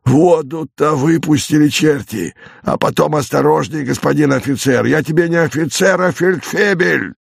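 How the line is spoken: Irritated hoarse voice. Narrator (Russian): из брички раздается совершенно такой же раздраженный и почему-то такой же хриплый голос

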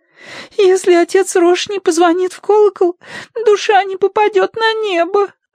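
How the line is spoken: Sobbing. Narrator (Russian): разрыдалась

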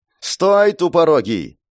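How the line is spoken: Shout. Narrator (Russian): закричала Кармен

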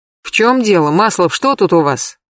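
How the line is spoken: Irritated question, manager. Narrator (Russian): раздраженно спросил менеджер Хохлов

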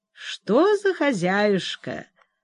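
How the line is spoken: Thoughtful smiling repetition. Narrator (Russian): задумчиво улыбаясь мне, повторил опекун

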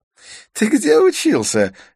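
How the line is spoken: Curious laughing. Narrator (Russian): рассмеялся Идрис с любопытством

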